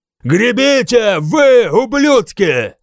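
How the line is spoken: Shouting. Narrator (Russian): закричал я

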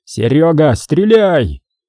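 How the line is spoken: Yelled. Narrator (Russian): заорал его тезка, Серега Парков

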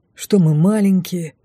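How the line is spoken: Grumbled. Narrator (Russian): буркнул второй поводырь

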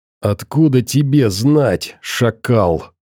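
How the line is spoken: Angry hiss. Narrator (Russian): Зло прошипел ученый

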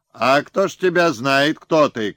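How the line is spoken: Distant shouting. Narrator (Russian): кричали с крепости

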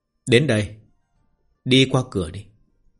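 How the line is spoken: Smiling. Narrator (Vietnamese): Nghi Húc Đạo mỉm cười

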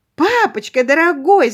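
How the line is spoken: Calling out. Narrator (Russian): закричала она

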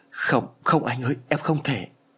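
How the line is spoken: Trembling. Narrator (Vietnamese): Liễu run rẩy nói

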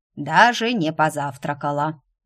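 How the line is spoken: Displeased mutter. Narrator (Russian): недовольно буркнула неизвестно откуда взявшаяся Марта

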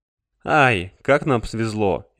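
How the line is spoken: Ironic snort. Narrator (Russian): иронично хмыкнул Дерин

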